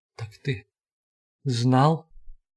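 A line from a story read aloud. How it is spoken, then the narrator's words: Suddenly forced out. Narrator (Russian): выдавил вдруг из себя Шанур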